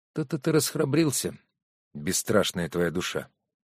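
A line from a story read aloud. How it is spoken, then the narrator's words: Said quietly. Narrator (Russian): тихо сказала Ева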